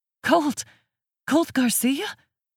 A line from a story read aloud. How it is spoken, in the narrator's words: stutters